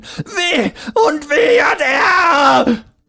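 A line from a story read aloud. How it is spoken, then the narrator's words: Shrill desperate scream, weeping. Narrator (German): schrie er nun fast schrill ein letztes Mal, bevor er weinend auf die Knie sank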